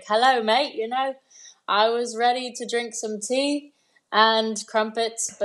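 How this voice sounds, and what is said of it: Put-on British accent. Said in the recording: “I was born with a British accent.”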